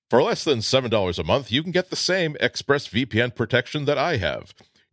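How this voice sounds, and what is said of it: Announcer voice. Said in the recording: “my announcer voice”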